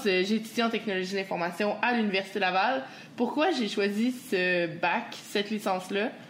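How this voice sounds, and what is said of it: Quebec French accent. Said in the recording (French): “j'espère qu'ils comprennent bien mon accent ... sans cacher mon accent ... Faut pas dénaturer le québécois”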